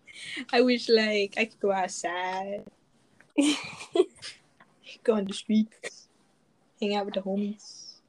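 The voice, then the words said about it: Put-on unusual accent. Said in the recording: “What kind of accent is that?”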